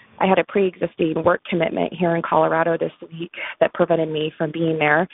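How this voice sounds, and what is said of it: Sick-sounding voice. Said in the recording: “as you might be able to tell from my voice, I'm a little sick”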